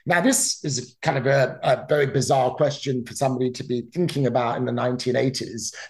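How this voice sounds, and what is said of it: British accent. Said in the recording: “I grew up in the United Kingdom, for example, as you could probably tell from my accent.”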